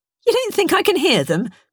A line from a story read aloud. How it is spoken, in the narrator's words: Bernice snapped